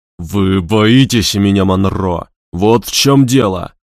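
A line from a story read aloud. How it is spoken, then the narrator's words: Growled. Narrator (Russian): прорычал он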